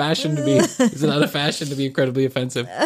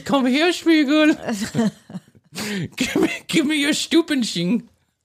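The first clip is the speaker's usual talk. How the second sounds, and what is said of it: Exaggerated put-on German accent. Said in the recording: “this is an incredibly offensive German accent.”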